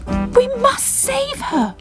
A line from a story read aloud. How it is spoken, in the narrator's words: cried Bubble